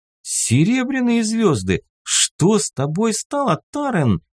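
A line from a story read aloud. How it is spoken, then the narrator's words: Exclamation. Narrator (Russian): воскликнул я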